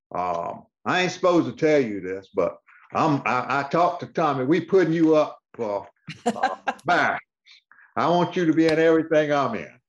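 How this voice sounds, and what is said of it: Impersonation of a colleague. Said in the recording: “I love your impersonation.”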